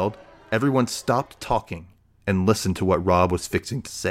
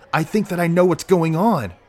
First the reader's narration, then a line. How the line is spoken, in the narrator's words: said, excitedly